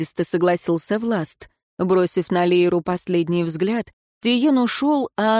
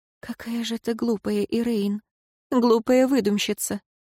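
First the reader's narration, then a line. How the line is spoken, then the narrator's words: Calming, whispered. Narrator (Russian): Женщина медленно выдохнула, успокаиваясь, и прошептала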